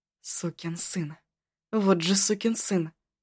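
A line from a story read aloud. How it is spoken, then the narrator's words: Muttering. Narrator (Russian): бормотала она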